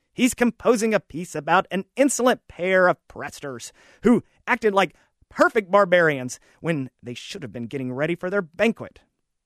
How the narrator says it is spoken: Maestro chirped, his antenna trembling furiously

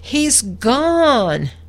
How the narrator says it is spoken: Amelia ran into the kitchen sobbing

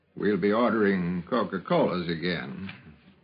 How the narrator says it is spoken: Carl said in his slow drawl

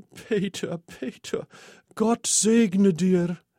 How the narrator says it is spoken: She sobbed

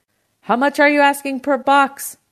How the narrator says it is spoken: my uncle shouted over the phone

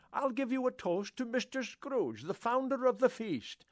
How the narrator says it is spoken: cried Bob Cratchit

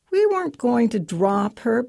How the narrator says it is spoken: Patrick whines defensively

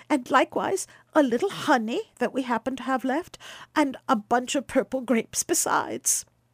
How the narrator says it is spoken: cried Baucis

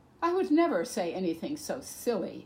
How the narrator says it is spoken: scoffed

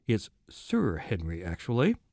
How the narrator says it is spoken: doctor cleared his throat, murmured

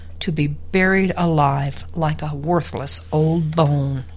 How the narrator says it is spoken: Kermit said with a groan

